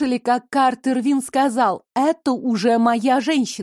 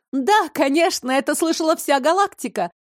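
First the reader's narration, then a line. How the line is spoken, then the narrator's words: Excited shout, woman. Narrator (Russian): восторженно выкрикнула женщина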